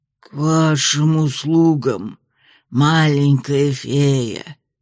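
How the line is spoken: Hoarse rasp. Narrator (Russian): прохрипело дерево

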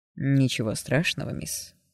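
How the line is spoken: Pleasant velvety voice. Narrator (Russian): ответил приятным бархатным голосом

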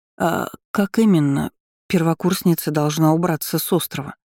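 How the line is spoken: Faltering whispered question. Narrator (Russian): Запнувшись на середине фразы, шепотом спросила Дебора у Селии

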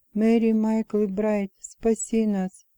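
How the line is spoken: Whisper. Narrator (Russian): женщина рядом со мной зашептала

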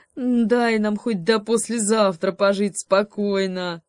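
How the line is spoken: Bear grumbling. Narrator (Russian): проворчал медведь

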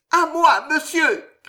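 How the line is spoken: Shouted. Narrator (French): cria la voix de Loïse

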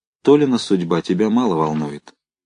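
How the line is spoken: Cold. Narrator (Russian): Людмила Николаевна сказала холодно

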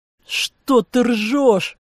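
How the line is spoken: Furious roar. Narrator (Russian): яростно взревел Дид

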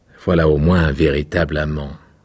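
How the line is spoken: Plain. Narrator (French): dit le rossignol

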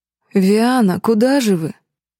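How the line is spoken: Near-purr, smiling, polite. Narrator (Russian): Чуть не мурлыкнул светловолосый шиариец с улыбкой, неожиданно перейдя на вежливое обращение

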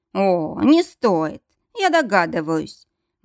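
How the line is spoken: Holding back laughter. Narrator (Russian): Максимилиан едва сдерживал себя, чтобы не рассмеяться в голос

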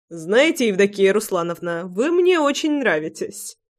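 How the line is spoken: Chuckling. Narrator (Russian): хохотнул Прохор

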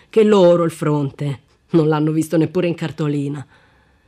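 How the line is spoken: Sarcastic emphasis. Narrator (Italian): sottolineò in tono sarcastico

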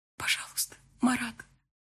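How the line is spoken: Quiet plea. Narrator (Russian): попросила я тихо

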